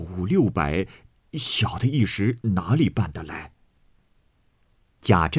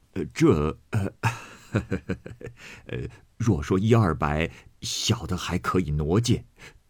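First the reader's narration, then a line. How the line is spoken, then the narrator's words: Laughing reply. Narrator (Chinese): 余禄笑回道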